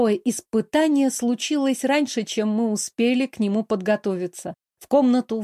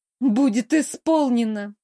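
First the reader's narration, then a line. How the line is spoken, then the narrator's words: Sighing. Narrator (Russian): вздохнула я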